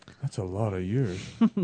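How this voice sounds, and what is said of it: Imitates another person's voice. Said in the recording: “That's my imitation of Jerry Seinfeld imitating.”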